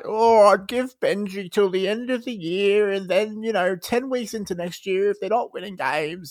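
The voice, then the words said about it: Poor Buzz Rothfield impression. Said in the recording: “terrible Buzz Rothfield impression”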